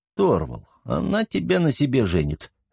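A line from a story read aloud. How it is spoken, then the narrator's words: Laughing. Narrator (Russian): рассмеялся Антон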